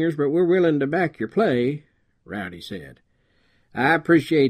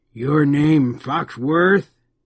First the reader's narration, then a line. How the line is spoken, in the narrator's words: snarled